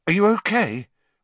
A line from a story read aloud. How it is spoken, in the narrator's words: Ron asked nervously